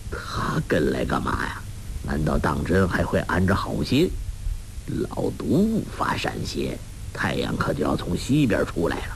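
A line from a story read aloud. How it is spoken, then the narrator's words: Muttering to himself. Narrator (Chinese): 洪七公心下嘀咕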